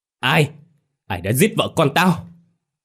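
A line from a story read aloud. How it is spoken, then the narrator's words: Thunderous scream. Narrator (Vietnamese): Tiếng hét của ông như một tiếng sét giữa trời quang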